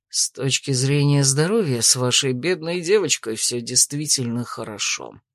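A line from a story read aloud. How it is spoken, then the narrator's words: Grumbled. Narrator (Russian): буркнул Дрейк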